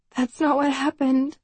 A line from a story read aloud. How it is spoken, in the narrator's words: I say, my voice trembling